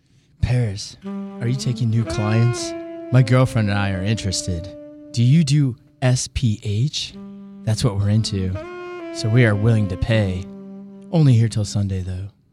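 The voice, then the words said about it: Sexy, seductive voice. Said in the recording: “I know you got a sexy voice.”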